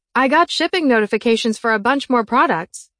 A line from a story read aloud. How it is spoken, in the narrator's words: I yelled